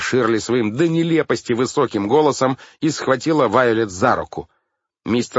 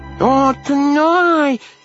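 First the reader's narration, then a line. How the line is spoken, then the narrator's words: Child shouting. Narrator (Russian): крикнула солнышко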